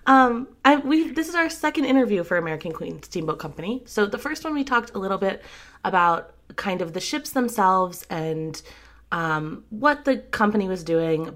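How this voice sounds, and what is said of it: Slightly sick, congested voice. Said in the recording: “my voice is a little bit funny. It's cold season here, so I'm a little bit sick”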